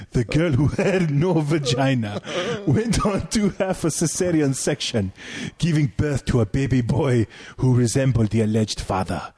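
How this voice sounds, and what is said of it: Deliberately bad put-on accent. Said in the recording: “That was a bad accent right there.”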